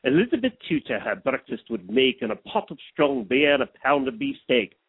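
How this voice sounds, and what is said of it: Put-on English accent. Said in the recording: “doing a bit of an English accent ... sound like, what's his name? Nigel.”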